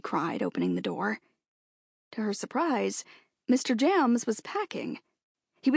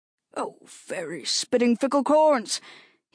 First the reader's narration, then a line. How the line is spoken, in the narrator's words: he cried